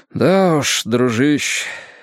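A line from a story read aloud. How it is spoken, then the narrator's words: Sigh. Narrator (Russian): вздохнул он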